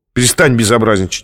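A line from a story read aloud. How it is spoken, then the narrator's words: Sharp, from afar. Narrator (Russian): резко сказал длинный издали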